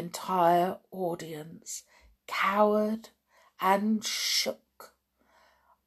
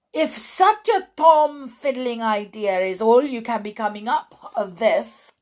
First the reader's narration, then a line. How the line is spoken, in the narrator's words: thundered the Grand High Witch